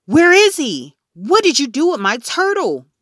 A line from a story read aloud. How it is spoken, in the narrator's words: I yelled